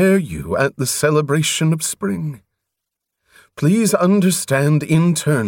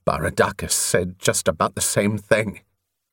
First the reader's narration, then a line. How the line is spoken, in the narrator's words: on the spur of his conflicting needs, Covenant growled